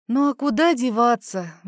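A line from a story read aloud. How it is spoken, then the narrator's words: Sighing reply. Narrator (Russian): вздохнула в ответ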